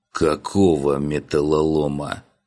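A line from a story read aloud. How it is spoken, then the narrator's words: Dawning groan. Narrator (Russian): Уже догадываясь, простонал я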